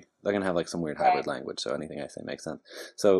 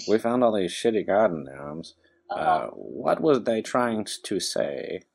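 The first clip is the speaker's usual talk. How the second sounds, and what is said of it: Put-on odd accent. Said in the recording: “I don't know why they're going to have that accent”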